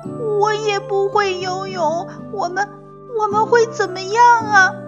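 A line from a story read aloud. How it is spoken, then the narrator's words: Crying child. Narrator (Chinese): 棘龙宝宝也哭着说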